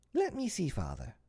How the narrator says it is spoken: Michael begged eagerly

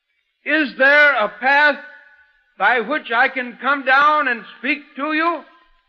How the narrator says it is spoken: I shouted

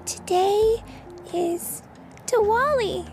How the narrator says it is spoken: Benny said nervously

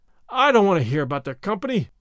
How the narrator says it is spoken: snapped out Gordon, in despair

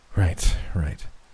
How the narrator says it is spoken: Ben muttered to himself

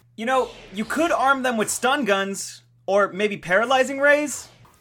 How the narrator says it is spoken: Oliver yelled toward the factory ceiling

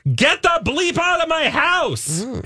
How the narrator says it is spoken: leading lady once screamed at an interviewer

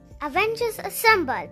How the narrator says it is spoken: Captain America shouted

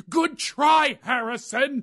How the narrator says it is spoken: Four mothers yell out

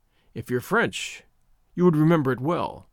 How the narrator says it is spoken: he said

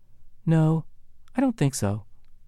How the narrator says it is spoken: said calmly

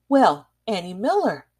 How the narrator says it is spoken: exclaimed her mother

